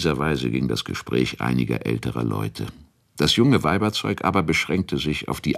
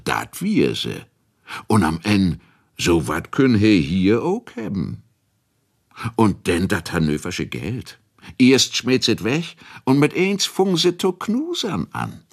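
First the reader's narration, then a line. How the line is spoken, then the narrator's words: Laughing. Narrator (German): lachte der andere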